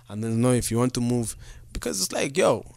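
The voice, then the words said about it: Put-on accent. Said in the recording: “Why are you using the accent, bro?”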